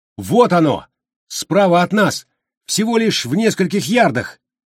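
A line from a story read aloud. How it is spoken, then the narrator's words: Shouting. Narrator (Russian): Джо закричал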